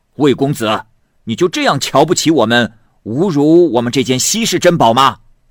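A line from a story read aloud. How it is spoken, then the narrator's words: Angry group. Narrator (Chinese): 众胡商这时都愤怒了，他们说道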